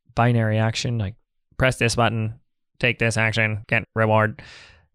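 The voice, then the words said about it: Robotic voice. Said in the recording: “That was my robot voice.”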